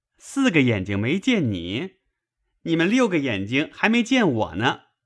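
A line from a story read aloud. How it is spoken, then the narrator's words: Laughing. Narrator (Chinese): 笑道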